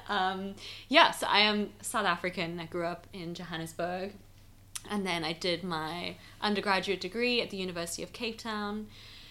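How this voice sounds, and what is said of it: South African English hybrid accent. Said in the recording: “the weird South African English hybrid accent”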